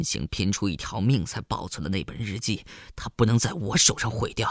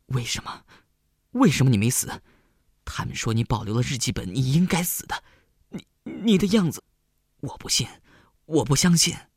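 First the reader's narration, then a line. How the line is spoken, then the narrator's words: Old man panting heavily. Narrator (Chinese): 陈老伯喘着粗气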